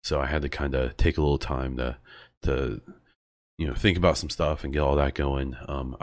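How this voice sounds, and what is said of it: Sick-sounding, slightly altered voice. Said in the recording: “I've become fairly sick. You might even be able to tell... you can probably hear my voice is a little different. Just allergies are killing me.”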